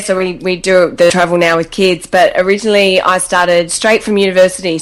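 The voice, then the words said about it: Australian accent. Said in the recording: “from your accent, I think you're Australian, right?”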